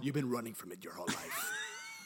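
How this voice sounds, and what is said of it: Javier Bardem impression. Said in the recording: “great Off Your Bardemic impression”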